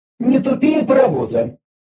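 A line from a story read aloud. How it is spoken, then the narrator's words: Muttering. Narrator (Russian): буркнула Виза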